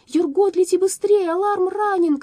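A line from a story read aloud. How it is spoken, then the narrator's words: Girl shouting. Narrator (Russian): крикнула девочка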